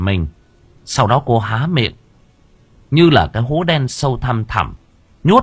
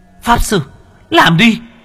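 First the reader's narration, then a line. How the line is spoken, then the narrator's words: Shout. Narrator (Vietnamese): cô Ly hét lên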